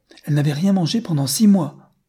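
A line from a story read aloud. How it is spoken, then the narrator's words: Little girl exclaiming. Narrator (French): s'écria la petite fille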